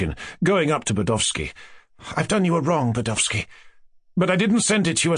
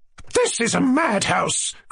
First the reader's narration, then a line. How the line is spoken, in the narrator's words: cried Lizaveta Prokofievna